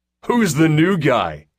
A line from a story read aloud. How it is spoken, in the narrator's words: someone bellowed